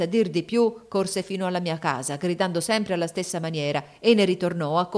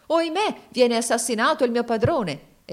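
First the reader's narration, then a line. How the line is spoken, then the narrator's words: Exclamation. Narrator (Italian): si esclamò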